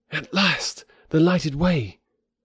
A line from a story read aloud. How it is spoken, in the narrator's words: he cried